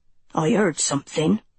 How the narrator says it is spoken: the first voice muttered darkly

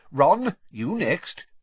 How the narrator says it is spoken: said Mr

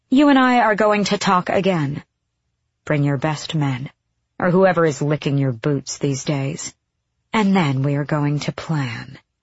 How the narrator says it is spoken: she said coldly

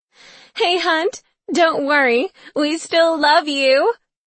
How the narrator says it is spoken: screams one of the girls, a blonde

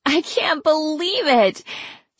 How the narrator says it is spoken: she began howling all over again

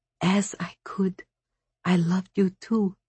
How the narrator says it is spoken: whispered

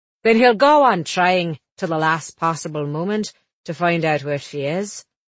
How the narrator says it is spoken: Underwood said grimly

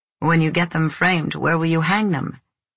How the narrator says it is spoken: asked him in a lightly teasing tone

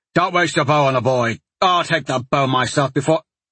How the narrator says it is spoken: another soldier snapped

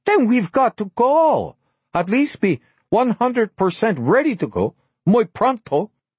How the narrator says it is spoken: Blanca half shouted

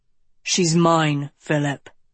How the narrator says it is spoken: he growled

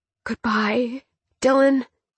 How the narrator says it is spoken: Nova whispered

